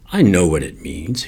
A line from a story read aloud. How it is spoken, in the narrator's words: snapped